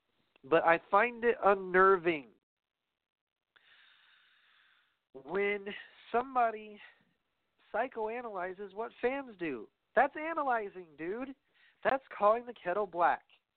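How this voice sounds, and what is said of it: Raised angry voice. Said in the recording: “raising my voice ... getting angry”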